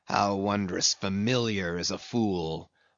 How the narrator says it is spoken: muttered Ahab

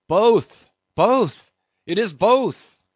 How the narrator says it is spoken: cried Daggoo again with a joyful shout

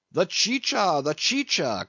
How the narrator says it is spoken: cried Don Pedro

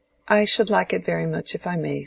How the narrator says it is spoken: said Mary

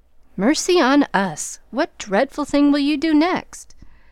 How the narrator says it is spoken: Joe … with a gasp

